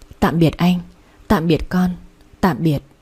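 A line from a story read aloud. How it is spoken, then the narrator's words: Faint murmur. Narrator (Vietnamese): miệng khẽ mấp máy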